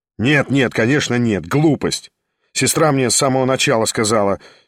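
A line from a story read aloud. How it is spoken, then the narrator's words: Impatient, sharp. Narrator (Russian): с нетерпением и резко проговорил Шатов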